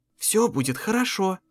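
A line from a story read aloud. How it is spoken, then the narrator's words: Whispered. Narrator (Russian): прошептала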